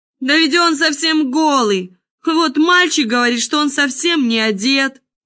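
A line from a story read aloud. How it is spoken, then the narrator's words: Whole crowd shouting. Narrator (Russian): закричал, наконец, весь народ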